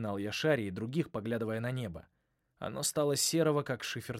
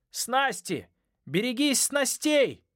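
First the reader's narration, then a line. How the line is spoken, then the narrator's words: Yelling. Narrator (Russian): заорал Ной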